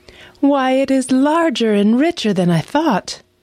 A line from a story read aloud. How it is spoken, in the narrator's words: cried she